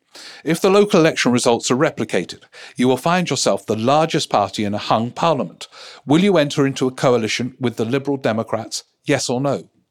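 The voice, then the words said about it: Imitates a radio presenter's voice. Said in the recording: “that's my impression of Martha Kearney.”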